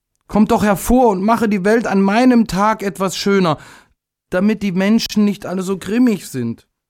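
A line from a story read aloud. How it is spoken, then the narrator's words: Calling out. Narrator (German): rief er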